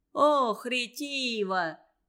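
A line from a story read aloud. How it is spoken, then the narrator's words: Loud laughter. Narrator (Russian): Захохотал Девяткин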